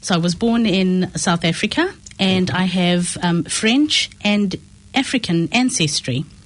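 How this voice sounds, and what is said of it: Non-New Zealand, South African accent. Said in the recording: “You can probably tell from my accent and my last name that I'm not somebody who was born in New Zealand”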